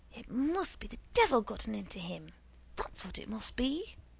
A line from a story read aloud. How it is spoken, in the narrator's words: the poor bride, trying desperately to stop the fighting and brawling, kept muttering